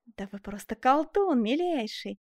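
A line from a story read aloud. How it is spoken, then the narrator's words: Showy exclamation. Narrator (Russian): воскликнул, рисуясь Мармань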